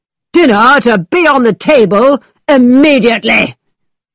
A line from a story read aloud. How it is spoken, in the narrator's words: He shouted